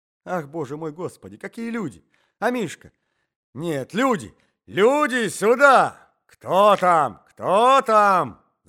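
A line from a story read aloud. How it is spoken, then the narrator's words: Shouting old man. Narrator (Russian): закричал старик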